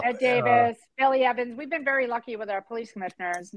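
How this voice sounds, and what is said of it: Boston accent. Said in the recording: “your Boston accent”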